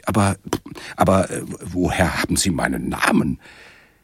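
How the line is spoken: Stammering. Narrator (German): stammelte ich

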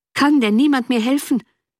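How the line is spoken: Desperate, exhausted cry. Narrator (German): rief endlich Wentworth im Ton der Verzweiflung, als ob seine eigene Kraft ihn ganz verlassen hätte

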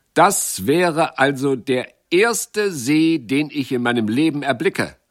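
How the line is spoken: Calling out. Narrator (German): rief Jacques

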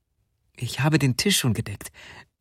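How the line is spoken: Plain. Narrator (German): sagte sie

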